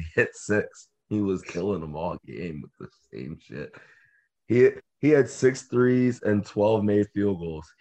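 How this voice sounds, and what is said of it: Raspy, strained voice. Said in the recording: “I can hear the pain in your voice... that's from the weed, and I should have put more ice in it... That's more raspiness than it is pain.”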